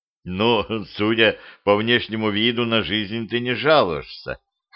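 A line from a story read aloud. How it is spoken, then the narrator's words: Smirking. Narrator (Russian): хмыкнул я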